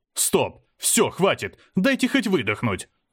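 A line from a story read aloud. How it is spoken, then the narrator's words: Yelling. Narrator (Russian): заорал я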